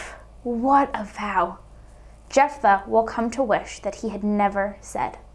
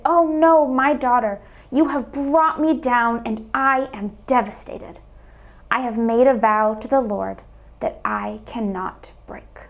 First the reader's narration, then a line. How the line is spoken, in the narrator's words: he tore his clothes and cried